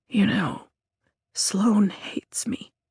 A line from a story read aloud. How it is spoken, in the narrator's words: I whisper